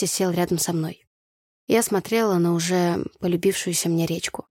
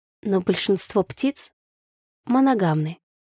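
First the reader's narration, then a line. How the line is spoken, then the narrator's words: Hesitant, uncertain. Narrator (Russian): начала неуверенно я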